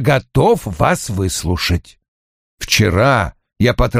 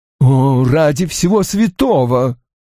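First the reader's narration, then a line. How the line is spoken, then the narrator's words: Groaned. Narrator (Russian): простонал Фред Оуэн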